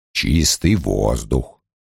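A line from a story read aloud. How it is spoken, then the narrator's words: Sigh. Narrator (Russian): вздохнул Лойл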